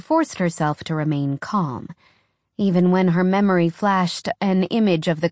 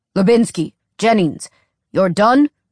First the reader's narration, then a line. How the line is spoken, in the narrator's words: Carter asked gruffly